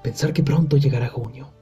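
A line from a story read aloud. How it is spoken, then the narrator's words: Muttered. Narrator (Spanish): mascullaba Bilbo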